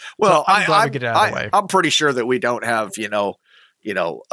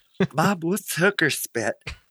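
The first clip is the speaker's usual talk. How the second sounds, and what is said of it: Imitates a young child's voice. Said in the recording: “your impression of a child”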